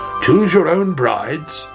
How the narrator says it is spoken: cried the king

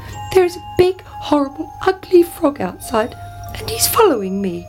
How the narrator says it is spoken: cried the princess

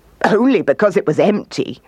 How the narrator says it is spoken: laughed the kangaroo

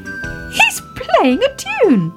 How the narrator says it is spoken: cried Baby Ted

